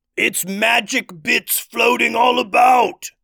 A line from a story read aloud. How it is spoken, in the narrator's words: yelled one troll